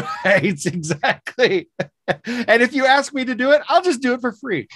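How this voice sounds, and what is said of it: Usual voice. Nothing is said of it.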